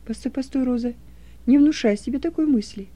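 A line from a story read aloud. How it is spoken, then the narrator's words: Plain, father. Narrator (Russian): ответил отец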